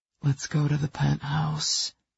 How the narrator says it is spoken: he breathed, as tempting as the devil

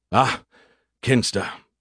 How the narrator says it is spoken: Scarandum sighed, as he too often had to do with the other officer

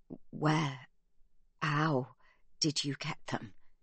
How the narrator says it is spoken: he says

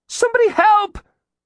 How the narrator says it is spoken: Zeke shrieked

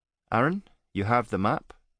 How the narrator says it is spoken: Vika said

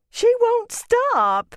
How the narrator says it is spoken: she wailed

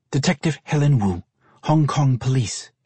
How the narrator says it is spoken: Helen replied in a clipped tone

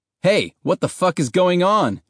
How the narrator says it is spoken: a soldier shouted

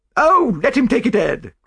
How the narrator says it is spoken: cried his wife

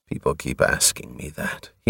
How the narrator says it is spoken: he murmured

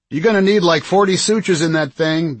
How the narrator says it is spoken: Ben called out

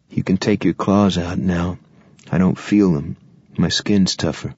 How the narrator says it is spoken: He said calmly

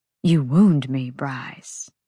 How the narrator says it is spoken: Flynn drawled

